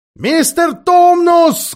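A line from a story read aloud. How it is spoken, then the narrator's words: Loud shout. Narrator (Russian): громко закричала Люси прямо в ухо Фавну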